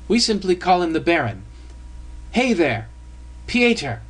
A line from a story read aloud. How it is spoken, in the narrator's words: cried